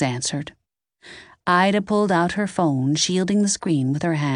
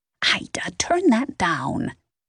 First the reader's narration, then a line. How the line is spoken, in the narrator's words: Nance whispered